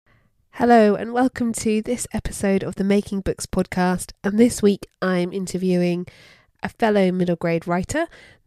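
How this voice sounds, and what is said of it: Congested, nasal voice from a cold. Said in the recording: “As you can hear from my voice, I'm coldy. I'm in the cold season. So get used to this nasally tone”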